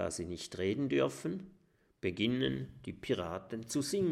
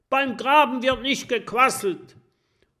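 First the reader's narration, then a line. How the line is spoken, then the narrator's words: Roaring. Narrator (German): Der schlimme Jim brüllt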